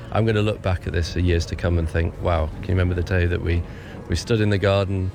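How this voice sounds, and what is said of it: Deep, worn-out tired voice. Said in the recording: “I'm a little bit broken. And you probably tell from my voice, I've done a lot of talking. And it's dropped down an octave or two in the last few days.”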